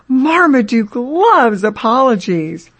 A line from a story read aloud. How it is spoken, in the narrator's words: as the little girl says